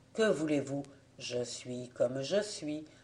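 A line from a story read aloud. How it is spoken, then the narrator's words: Gentle smiling reply. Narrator (French): Lui souriait, se contentait de répondre doucement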